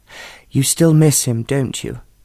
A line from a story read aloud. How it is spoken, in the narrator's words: Aunt Alice said gently